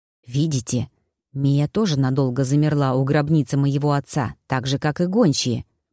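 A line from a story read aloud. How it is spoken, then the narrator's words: Whisper. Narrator (Russian): прошептал Люк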